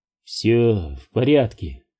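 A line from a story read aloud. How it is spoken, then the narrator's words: Muffled, lost voice. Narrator (Russian): голос его звучал глухо и потерянно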